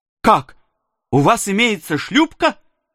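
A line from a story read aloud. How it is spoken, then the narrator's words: Astonished exclamation. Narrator (Russian): воскликнул я, сильно изумленный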